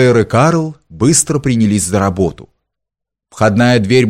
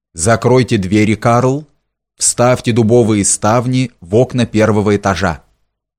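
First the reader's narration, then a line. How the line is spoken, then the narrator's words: Calm command. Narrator (Russian): спокойно отдал приказание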